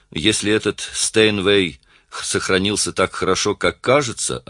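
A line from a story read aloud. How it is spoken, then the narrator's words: Forced calm. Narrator (Russian): ответил музыкант, стараясь говорить спокойно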